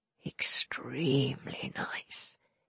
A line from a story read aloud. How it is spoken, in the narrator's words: he purred